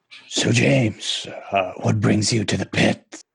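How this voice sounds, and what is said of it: Impression of Gary. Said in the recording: “trying to do his best Gary impersonation”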